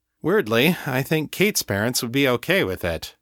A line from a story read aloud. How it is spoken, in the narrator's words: John said dryly